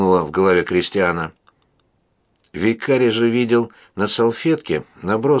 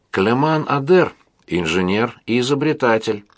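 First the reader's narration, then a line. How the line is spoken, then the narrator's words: Plain. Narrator (Russian): ответил Жак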